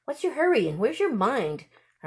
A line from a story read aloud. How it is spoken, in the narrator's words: her mother said impatiently